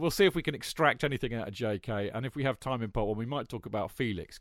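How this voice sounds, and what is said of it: Usual voice. Nothing is said of it.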